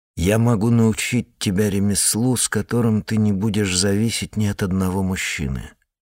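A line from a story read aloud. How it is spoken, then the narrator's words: Plain. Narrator (Russian): сказал я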